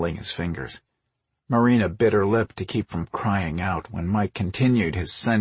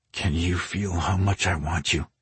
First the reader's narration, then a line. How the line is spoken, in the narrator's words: he murmured